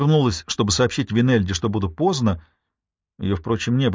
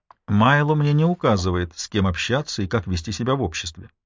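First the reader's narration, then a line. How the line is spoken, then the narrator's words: Soft. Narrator (Russian): произнесла я мягко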